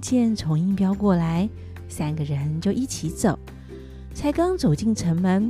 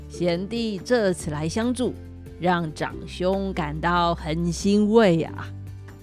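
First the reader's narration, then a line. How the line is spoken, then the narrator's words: Smiling, pleased. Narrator (Chinese): 虫侯虎 笑容满面地说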